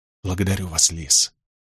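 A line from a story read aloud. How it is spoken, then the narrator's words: Whisper to not wake child. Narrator (Russian): ответил я шепотом, чтобы не разбудить ребенка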